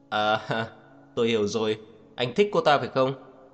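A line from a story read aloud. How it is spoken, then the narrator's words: Mocking laugh. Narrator (Vietnamese): dường như ông ta nhận ra điều gì đó nên cất tiếng cười mang theo ý mỉa mai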